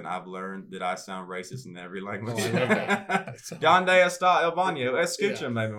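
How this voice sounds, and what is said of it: Thick regional accent. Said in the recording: “actually sounds more thick ... with my accent”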